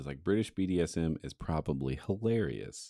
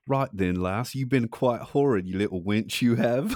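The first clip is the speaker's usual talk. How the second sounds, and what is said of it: Put-on British accent. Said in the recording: “I'm going to try to say it in a British accent.”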